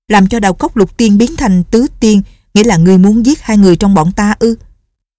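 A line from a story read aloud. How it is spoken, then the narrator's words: Angry. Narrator (Vietnamese): Đào Hoa Tiên tức giận nói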